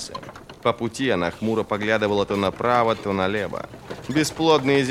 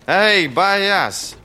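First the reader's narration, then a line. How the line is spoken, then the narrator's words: Shouted. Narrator (Russian): крикнула Ферро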